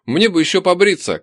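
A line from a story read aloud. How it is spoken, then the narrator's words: Shouting. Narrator (Russian): крикнул я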